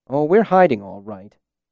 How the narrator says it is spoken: Bass said bitterly

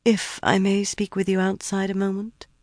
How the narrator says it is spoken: murmured

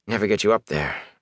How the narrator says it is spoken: Matt muttered

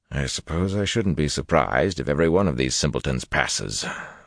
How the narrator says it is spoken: the hawk-nosed man muttered

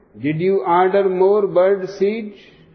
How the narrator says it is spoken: Kovalevsky screams again

